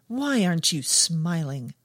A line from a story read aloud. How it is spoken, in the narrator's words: snapped